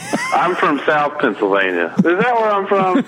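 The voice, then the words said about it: Southern accent. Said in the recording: “such a southern accent ... when I get drunk, I have a southern accent”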